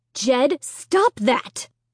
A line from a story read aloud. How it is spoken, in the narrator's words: Mom cried sharply